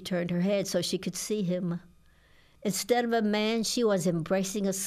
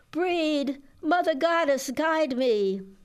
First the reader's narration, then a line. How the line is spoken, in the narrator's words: She cried out